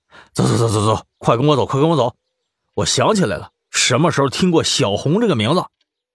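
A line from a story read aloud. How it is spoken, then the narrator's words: Breathless and urgent. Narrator (Chinese): 他气喘吁吁的，急着说道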